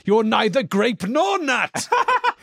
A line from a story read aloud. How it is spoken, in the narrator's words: screaming